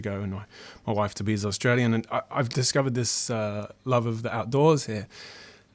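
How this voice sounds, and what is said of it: Non-Australian accent. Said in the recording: “you might be able to detect from, from my accent that I'm not from Australia”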